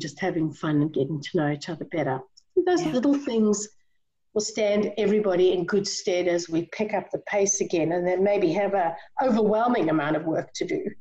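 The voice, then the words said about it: South African accent. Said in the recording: “People can hear that you have an accent. If they are South African, it's not an accent, but if they aren't South African, it is.”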